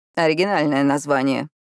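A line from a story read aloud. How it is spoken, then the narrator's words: Wry grunt. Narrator (Russian): хмыкнул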